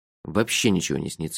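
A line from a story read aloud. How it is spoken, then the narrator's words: Muttering. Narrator (Russian): буркнул я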